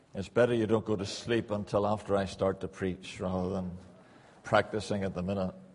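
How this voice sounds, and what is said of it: Northern Irish accent. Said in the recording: “Probably take you a wee while to get used to my accent. I was brought up in Northern Ireland”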